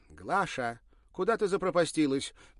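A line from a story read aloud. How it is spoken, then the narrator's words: Shouted. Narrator (Russian): крикнула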